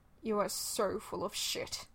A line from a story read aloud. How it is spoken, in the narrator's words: Kanda grumbles